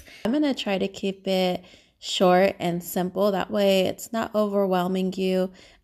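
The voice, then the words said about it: Slightly nasal voice. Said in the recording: “my voice is a little nasally, it's because I am a little sick right now. I have a little bit of a cold”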